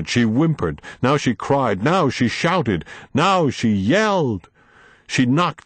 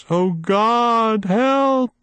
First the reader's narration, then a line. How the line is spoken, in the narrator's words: she wailed